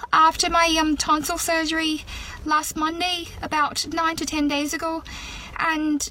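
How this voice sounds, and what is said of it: Southern Irish accent. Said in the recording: “she's got a very good Irish accent ... Southern Irish from the south of Ireland rather than the north ... it's authentic”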